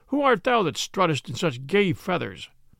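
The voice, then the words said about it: Jovial voice. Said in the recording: “in a jovial voice”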